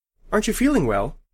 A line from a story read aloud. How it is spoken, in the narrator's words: I asked anxiously